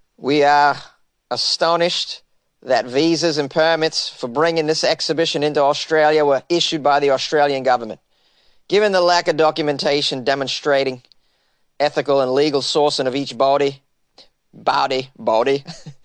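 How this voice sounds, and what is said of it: Put-on Australian accent. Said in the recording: “I just want to work on my Australian accent.”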